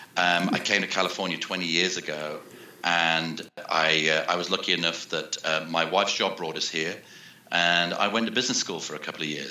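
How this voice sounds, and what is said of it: British accent. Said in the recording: “Those people with an ear for accents will tell that I'm from the UK.”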